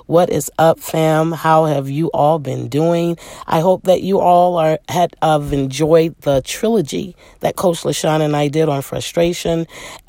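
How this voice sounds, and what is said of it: Slightly husky, altered voice. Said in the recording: “my voice is a little, I don't know what to describe this as. It's not hoarse, but it's, you know, it's giving a little sexy”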